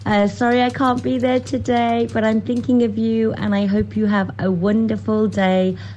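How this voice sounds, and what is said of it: Birmingham accent. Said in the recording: “that Birmingham accent coming out there”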